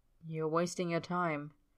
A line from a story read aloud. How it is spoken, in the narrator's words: Tyler murmurs, too low for anyone else to hear